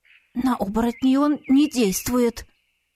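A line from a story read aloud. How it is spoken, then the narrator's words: Woman's trembling voice. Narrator (Russian): дрогнувшим голосом, заметила одна из женщин, наверное, самая смелая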